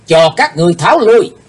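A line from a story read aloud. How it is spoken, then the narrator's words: Sudden ringing shout. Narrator (Vietnamese): thiếu giáo chủ của âm ma giáo bỗng hét vang lên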